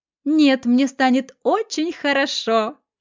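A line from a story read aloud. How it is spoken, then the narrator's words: Laughing. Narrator (Russian): засмеялась Светка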